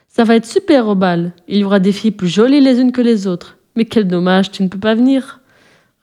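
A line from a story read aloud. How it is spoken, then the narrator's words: Group sneering. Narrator (French): ricanèrent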